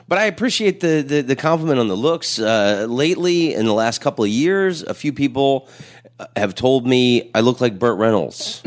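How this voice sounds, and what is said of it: Raspy radio voice. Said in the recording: “you got, like, a great voice ... that's mostly cigarettes ... It gives you a great little radio raspy voice.”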